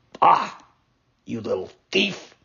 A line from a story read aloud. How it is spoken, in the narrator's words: said the farmer in an angry voice